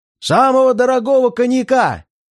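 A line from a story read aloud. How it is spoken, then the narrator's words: Shouting. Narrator (Russian): прокричал я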